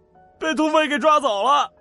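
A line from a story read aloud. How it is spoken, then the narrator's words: Wailing, tearful. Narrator (Chinese): 那几个小土匪哭丧道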